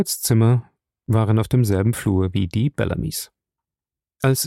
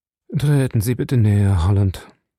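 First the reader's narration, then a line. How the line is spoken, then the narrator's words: Tired voice. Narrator (German): Howard sprach mit einer müden Stimme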